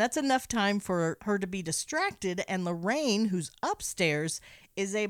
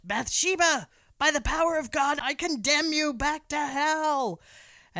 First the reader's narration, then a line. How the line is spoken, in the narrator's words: Ed yells out